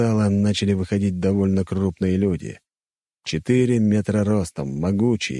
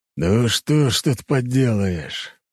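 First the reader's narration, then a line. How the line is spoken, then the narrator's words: Old man's sigh. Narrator (Russian): вздохнул старик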